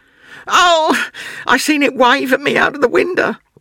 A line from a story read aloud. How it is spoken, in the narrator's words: wailed the boy